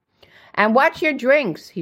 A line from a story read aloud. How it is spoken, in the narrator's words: shouted